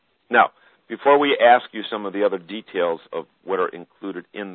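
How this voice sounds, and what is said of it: Usual voice. Nothing is said of it.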